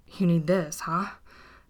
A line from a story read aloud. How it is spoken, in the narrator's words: panted Dean